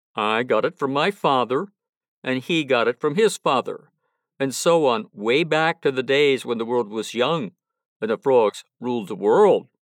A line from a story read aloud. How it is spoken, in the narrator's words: said he